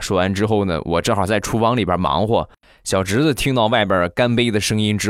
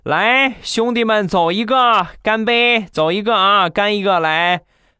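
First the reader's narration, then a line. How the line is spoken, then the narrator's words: Loud drunken clamoring. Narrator (Chinese): 表哥呀和他的一个好哥们在客厅里边喝酒啊，大声的嚷嚷着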